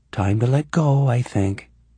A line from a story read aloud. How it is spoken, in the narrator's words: she said in a soothing voice